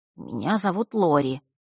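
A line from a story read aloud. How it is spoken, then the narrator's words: Quiet introduction. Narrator (Russian): тихо представился он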